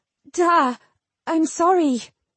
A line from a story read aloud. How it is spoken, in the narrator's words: Jill stammered